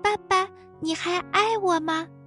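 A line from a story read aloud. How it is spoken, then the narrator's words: Quiet question. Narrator (Chinese): 他小声问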